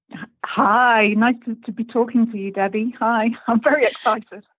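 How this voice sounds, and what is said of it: English accent. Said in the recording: “you're in England now, but let's hear that accent.”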